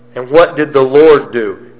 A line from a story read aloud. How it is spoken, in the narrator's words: He roared